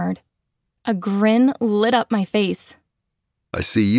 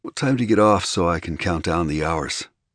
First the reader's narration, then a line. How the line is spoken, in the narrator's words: He murmured